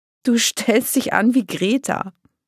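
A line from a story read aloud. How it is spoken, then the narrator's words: Giggling. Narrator (German): Silvania kicherte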